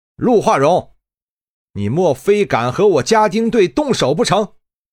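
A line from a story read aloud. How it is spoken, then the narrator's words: Loud, laughing. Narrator (Chinese): 陆化荣哈哈大笑，大声说道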